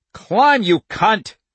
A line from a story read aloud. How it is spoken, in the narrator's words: OJ roared